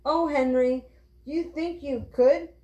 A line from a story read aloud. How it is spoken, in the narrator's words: cried Violet